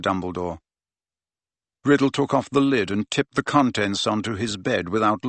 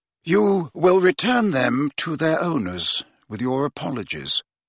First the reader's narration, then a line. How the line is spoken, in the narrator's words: said Dumbledore calmly